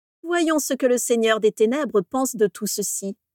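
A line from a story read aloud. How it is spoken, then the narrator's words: Sneering. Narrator (French): ricana Abraxas Malfoy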